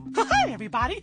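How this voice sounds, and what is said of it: Squeaky cartoon mouse voice. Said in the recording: “he has a squeaky voice”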